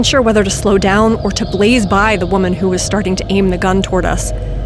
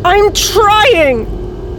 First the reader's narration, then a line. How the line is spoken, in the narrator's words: said, shouting now, the panic fully evident in my voice